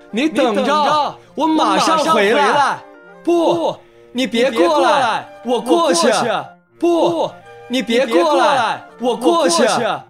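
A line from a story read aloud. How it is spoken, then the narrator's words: Loud. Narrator (Chinese): 阿卡大声说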